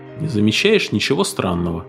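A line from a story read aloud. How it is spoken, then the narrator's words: Plain question. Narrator (Russian): спросил он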